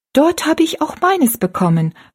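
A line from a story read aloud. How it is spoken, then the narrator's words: Calling out. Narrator (German): rief Rosalie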